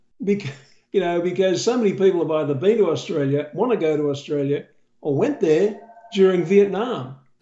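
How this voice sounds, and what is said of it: Australian accent. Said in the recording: “my Australian accent has been the most amazing door opener”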